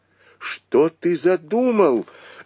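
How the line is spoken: Screamed. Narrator (Russian): закричала Сижень

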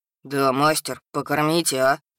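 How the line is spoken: Deep voice, meekly pleading. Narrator (Russian): пробасил Хак, пытаясь придать своей массивной фигуре кротко-просительный вид

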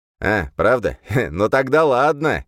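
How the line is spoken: Short laugh. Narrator (Russian): хохотнул

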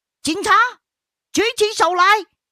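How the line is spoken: Distant shout. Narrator (Chinese): 远处有人喊

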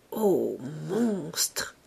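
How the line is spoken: Murmured. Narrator (French): murmurait-elle

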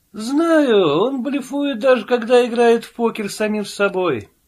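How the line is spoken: Sigh. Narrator (Russian): вздохнул Пил

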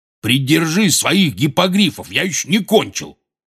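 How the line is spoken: Barked. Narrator (Russian): рявкнул Хагрид

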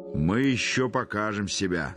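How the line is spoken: Loud laughter. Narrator (Russian): захохотал Михаил Аверьянович

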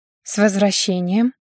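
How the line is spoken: Quiet speech. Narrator (Russian): тихо сказала она

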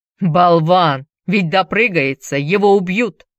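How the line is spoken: Fairly loud. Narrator (Russian): один из сидящих под деревом довольно громко сказал

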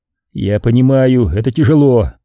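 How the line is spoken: Sympathetic sigh. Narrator (Russian): сочувственно вздохнул Костя

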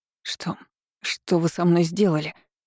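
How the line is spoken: Hoarse gasping voice. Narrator (Russian): Просипела, хватая ртом воздух

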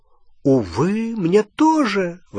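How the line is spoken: Exclamation. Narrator (Russian): воскликнул Треверс

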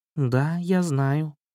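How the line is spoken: Frightened quiet mutter. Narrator (Russian): очень сильно испугался и тихонько пробормотал

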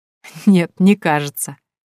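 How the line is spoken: Laughing. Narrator (Russian): засмеялась я

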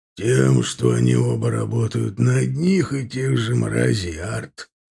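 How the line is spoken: Through gritted teeth. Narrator (Russian): процедил Аркар

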